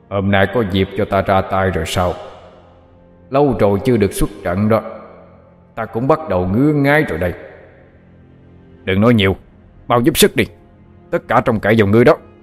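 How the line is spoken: Deep gruff question. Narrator (Vietnamese): Nó cất giọng ồm ồm hỏi

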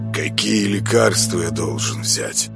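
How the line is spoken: Calmer question. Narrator (Russian): уже более спокойно спросил он

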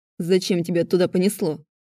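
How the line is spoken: Irritated question. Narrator (Russian): раздраженно спросил Глеб

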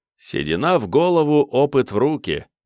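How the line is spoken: Laughing. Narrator (Russian): засмеялся офицер

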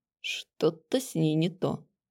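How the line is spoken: Mutter. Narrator (Russian): пробормотал Нойс

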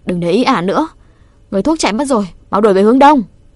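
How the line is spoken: Loud feigned-wounded shout. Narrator (Vietnamese): Rêu rào tạo vết thương giả, hét to

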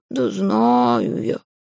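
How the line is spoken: Pleased grumbling cat. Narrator (Russian): пробурчал кот, и в его голосе послышались довольные нотки

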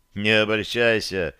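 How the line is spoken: Snorting. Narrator (Russian): хмыкнул я

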